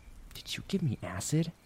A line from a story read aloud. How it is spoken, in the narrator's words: She slowly whispered into his ear